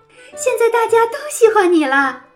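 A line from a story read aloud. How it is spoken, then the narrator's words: Mother calling out. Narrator (Chinese): 尖牙妈妈叫道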